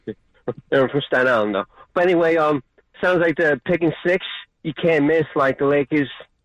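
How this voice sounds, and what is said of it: New Jersey accent. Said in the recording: “that's definitely a Jersey accent right there”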